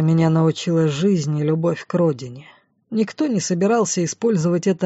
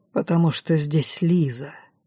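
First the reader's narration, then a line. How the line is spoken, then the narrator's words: Quiet. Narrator (Russian): тихо ответил Арт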